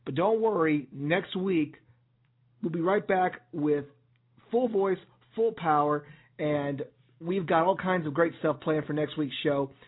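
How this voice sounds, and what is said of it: Hoarse, raspy voice. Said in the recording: “sorry if I'm sounding a little hoarse, well, or a little pony. I just shot my vocal cords out last night, so I sound a little raspy.”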